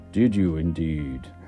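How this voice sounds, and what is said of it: Deep growly character voice. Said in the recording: “Said a growly voice ... Your voice is very growly ... It's very difficult to do a very deep voice.”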